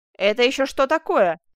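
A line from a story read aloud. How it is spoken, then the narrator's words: Furious shout. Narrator (Russian): с яростью закричал де Стурвиль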